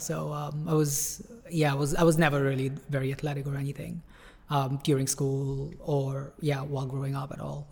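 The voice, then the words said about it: Slight Canadian-American accent twang. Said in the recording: “a little bit of a twang... The accent... a bit of a Canadian-American accent”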